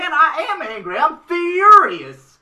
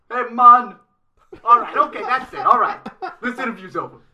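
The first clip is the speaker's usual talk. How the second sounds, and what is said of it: Put-on Jamaican reggae accent. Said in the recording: “Do your reggae voice... Jamaica”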